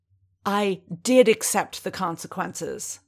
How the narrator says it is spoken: Din snarled

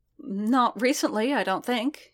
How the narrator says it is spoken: he said, only a little unsteadily

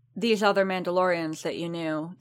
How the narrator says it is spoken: Din said, trying to keep his voice even

